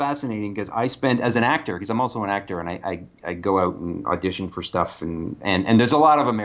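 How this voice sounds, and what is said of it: Usual voice. Nothing is said of it.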